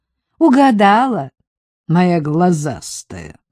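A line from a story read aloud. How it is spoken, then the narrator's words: Angry reply. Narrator (Russian): ответила злобно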